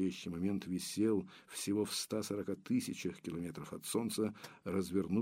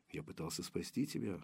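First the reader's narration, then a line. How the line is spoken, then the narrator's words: Breathless. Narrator (Russian): выдохнул Мальгин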